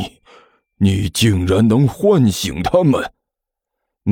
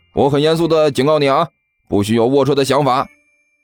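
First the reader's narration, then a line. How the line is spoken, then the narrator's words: Uncomfortable, blurted shout. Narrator (Chinese): 干球被这货看得浑身不舒服，忍不住嚷了一句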